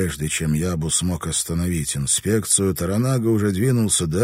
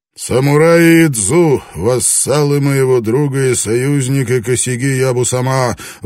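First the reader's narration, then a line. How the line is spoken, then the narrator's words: Booming shout. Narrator (Russian): выкрикнул он своим зычным голосом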